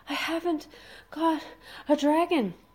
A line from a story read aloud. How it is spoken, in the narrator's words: panted Fishlegs